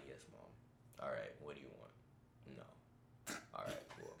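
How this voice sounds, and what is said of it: Video game character voice, hiding gayness. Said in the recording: “Give us an at-home impersonation ... I emulated characters in video games so I could hide the gayness ... This nigga became Kratos”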